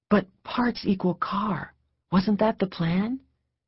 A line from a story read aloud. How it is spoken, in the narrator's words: She found herself speaking in low whispers, her mouth near his ear